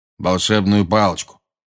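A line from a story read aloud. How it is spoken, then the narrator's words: Gruff mutter. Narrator (Russian): буркнул дежурный колдун-охранник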